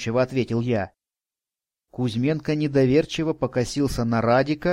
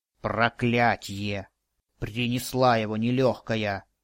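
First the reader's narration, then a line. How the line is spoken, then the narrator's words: Grumbling. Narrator (Russian): проворчал Радик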